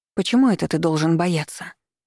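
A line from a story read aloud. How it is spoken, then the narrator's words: Forced calm. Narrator (Russian): Я постаралась, чтобы мой голос прозвучал как можно более спокойно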